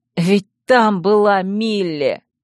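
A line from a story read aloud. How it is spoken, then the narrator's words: Hoarse growl. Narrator (Russian): Тир хрипло зарычал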